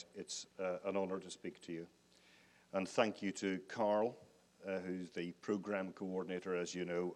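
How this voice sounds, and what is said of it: Northern Irish accent. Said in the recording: “I am not, in fact, American... This accent originally hails from Northern Ireland, via London”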